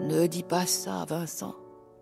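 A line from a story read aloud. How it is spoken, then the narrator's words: Director sighing. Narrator (French): soupira le directeur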